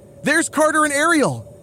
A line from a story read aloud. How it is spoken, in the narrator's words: Bailey shouts